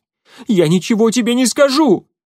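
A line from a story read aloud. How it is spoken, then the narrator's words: Shouted. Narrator (Russian): крикнул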